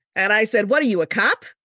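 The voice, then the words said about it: Solid put-on Long Island accent. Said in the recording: “pure Long Island ... I tried to keep the accent going ... It's actually pretty solid.”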